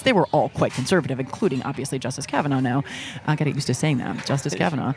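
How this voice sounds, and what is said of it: Soothing, radio-style voice. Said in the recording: “You have a very good, very soothing voice ... great voice? Great ... radio ... voice ... So it's like an NPR voice.”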